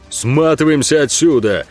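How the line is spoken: Bellowing. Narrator (Russian): гаркнул Ог

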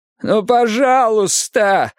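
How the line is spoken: Whimpering. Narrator (Russian): захныкал он

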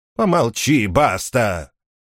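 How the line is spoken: Rude interruption. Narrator (Russian): грубо перебила его Мартола

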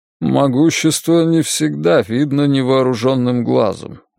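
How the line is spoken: Muffled, hollow voice. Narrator (Russian): глухо сказал директор

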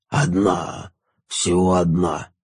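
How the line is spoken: Sleepy. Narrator (Russian): сонно произнес упырь

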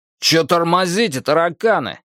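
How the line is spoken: Gruff bark. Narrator (Russian): рявкнул второй рядовой

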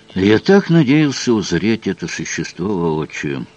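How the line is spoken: Grumbled mutter. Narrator (Russian): буркнул он

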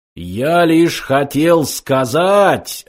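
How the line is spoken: Deafening computer roar. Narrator (Russian): оглушительно взревел компьютер

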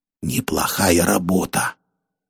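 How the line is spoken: Whispered. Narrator (Russian): прошептал Мулат

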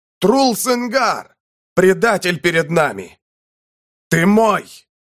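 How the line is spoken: Louder shout. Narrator (Russian): Саур кричал громче

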